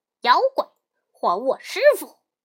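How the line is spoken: Loud shout. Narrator (Chinese): 悟空 高声叫道

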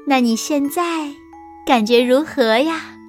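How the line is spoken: Admiring. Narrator (Chinese): 大灰狼赞叹道

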